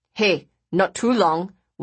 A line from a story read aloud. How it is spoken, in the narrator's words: Wai Mun growled jovially